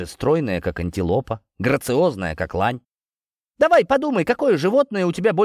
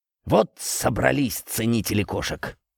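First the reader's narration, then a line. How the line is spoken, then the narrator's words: Grumbled. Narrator (Russian): буркнул Борис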